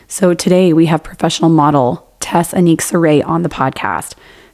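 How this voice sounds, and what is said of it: Strained voice after losing it. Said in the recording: “I am recovering from losing my voice ... before I sounded like this”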